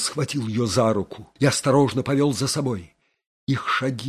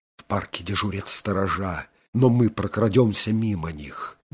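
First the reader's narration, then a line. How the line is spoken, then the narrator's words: Quick whisper. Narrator (Russian): быстро шептал Доуэль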